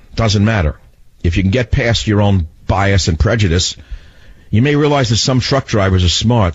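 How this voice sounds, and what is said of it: Brooklyn New York accent. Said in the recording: “my accent sounds like that of a truck driver from from uh, Brooklyn”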